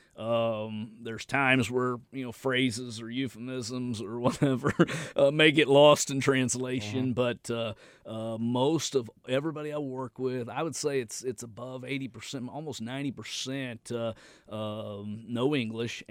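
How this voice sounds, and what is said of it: Southern US country accent. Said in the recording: “my southern country accent”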